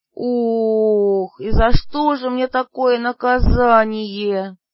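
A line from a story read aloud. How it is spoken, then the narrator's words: Moan. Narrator (Russian): простонала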